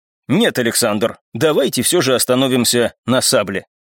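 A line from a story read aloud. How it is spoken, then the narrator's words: Confident tone. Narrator (Russian): уверенным тоном произнес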